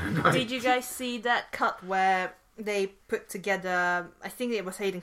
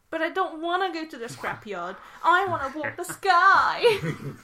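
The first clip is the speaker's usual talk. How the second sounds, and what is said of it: Whiny imitation of another person. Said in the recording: “Mark Hamill just sort of like ... he's just as whiny and bitchy”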